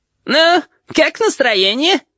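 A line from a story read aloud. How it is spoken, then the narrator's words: Giggling question. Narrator (Russian): спросил хихикающий голос Рибалтера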